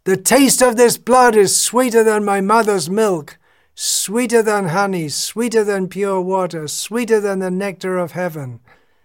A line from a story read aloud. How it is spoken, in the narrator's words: he shouted